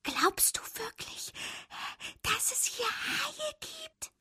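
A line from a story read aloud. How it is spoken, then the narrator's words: Whisper. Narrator (German): flüsterte Fabius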